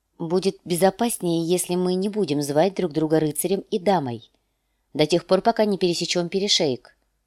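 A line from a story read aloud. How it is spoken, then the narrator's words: Plain. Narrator (Russian): сказала она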